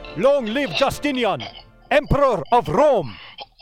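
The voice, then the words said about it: Gothic accent. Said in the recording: “in a Gothic accent”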